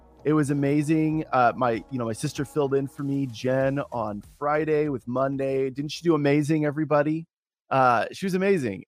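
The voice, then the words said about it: Slightly hoarse, shaky voice. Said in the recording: “my voice is still a little froggy, a little bit. Voice a little shaky still”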